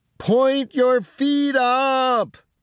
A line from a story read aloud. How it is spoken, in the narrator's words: yells Frank